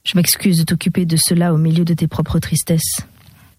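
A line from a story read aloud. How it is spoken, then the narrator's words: Hard, formal voice. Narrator (French): d'une voix dure et formaliste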